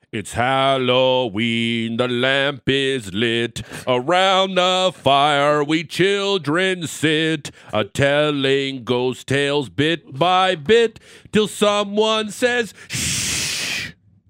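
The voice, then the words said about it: Deep singing voice. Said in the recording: “I'm going to do a deep voice”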